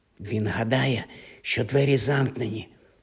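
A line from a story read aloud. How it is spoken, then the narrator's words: Whispered. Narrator (Ukrainian): прошепотів Гаррі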